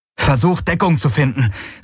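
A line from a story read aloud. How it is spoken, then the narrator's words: Called out. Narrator (German): rief Garlin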